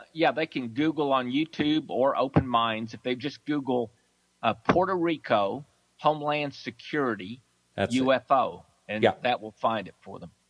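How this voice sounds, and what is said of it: Texas accent. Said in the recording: “someone likes your accent on the message board ... A lot of people love the Texas accent. Sounds like good people.”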